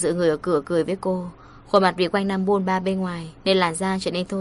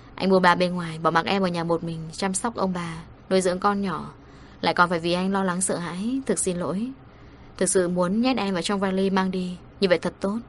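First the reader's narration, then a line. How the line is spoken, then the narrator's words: Sighing. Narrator (Vietnamese): Anh thở dài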